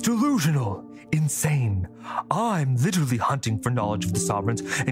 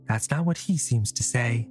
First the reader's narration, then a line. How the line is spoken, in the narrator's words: Tali said quietly